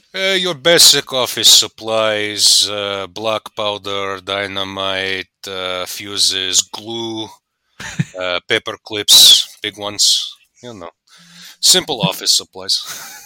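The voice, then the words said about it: Impression of Atlantis demolition guy. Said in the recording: “do a good impersonation of the demolition guy from that movie ... The guy who likes to blow things up with the bowl cut.”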